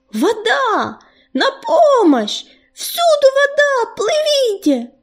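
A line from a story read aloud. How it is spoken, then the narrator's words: Panicked shouting. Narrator (Russian): закричал Ежевика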